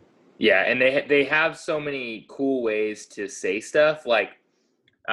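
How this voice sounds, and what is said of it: Usual voice. Nothing is said of it.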